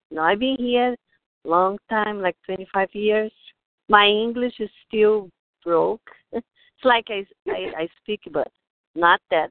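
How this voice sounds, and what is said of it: Brazilian Portuguese accent. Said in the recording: “I am from Brazil... I have a lot of accent.”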